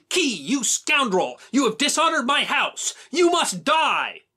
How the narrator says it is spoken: Sickles came at Key in a rage and shouted

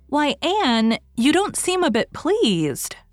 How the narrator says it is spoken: she exclaimed

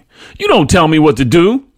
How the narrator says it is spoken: my mother snapped

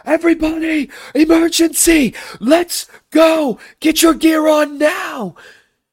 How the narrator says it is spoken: you shout out commands

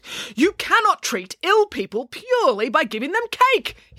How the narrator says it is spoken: he yelled at Nanny Piggins

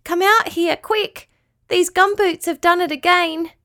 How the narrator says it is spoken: cried

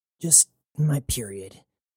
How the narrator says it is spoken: said Jazz through gritted teeth

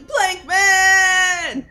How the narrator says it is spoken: Val's pointing her staff at plank man and just yelling

